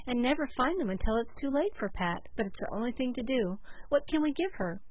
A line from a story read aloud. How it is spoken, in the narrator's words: sighed Cecily